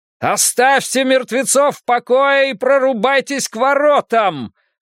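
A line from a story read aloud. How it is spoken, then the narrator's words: Shouting. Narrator (Russian): закричал Изгримнур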